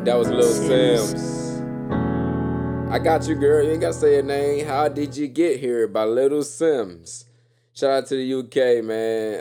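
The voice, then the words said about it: Talking very loudly. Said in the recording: “Why am I talking so loud?”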